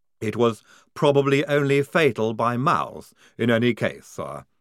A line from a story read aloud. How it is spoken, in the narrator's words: said Igorina